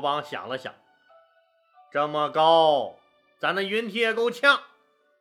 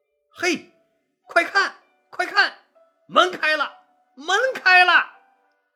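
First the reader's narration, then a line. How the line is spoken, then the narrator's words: Amazed shouting. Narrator (Chinese): 士兵们惊奇的喊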